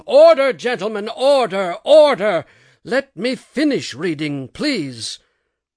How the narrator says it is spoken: the chair was hammering with the gavel and shouting

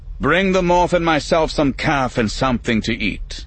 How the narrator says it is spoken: Borkus called out to someone in the hall

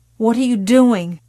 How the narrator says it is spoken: she croaked hoarsely

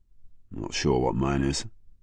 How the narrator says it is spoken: murmured Jackman

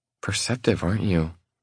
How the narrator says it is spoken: She mutters, as if I'm some kind of afterthought

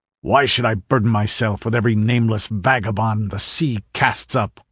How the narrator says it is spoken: snarled Zaparavo, his look and manner more insulting than his words

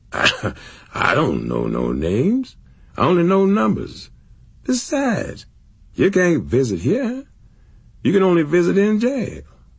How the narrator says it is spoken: the guard would laugh and say

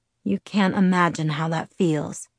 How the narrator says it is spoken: he sighed

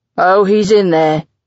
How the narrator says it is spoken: John rumbles

